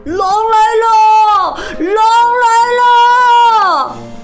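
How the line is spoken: All-out shout. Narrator (Chinese): 使出全身的力气，喊起来

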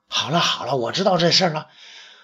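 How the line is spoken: Hasty interruption. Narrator (Chinese): 窦太主急忙打断

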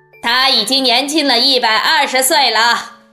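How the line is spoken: Calling out. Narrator (Chinese): 温克先生叫道

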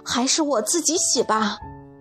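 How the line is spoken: Breathless. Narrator (Chinese): 布迪喘了口气

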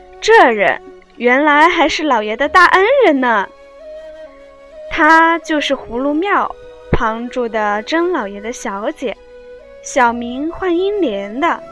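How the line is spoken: Cold sneer. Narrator (Chinese): 门子冷笑道

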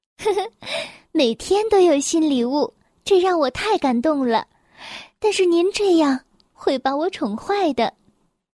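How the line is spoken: Smiling. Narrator (Chinese): 公主微笑着说

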